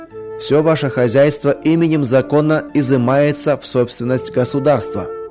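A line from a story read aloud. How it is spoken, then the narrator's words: Loud official announcement. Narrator (Russian): громко добавил руководитель оперативной группы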